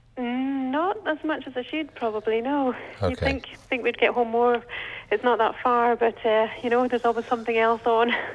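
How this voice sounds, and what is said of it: Scottish accent. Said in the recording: “That's an accent you have there. ... from Scotland. ... Edinburgh.”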